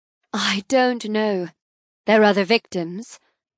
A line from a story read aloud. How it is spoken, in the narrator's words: add dryly